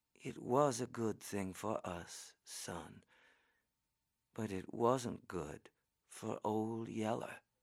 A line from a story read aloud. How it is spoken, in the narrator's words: Mama said in a quiet voice